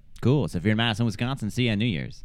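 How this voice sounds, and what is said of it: Radio announcer voice. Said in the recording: “You dropped in like some kind of radio announcer voice.”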